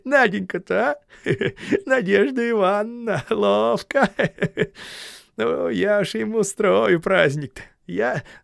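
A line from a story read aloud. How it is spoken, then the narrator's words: Sweet giggling mutter. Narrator (Russian): хихикая сладко, он забормотал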